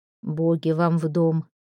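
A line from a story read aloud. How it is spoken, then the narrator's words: Low voice. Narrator (Russian): низким голосом произнес селец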